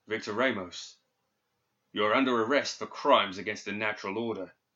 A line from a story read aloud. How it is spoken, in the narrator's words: he said gravely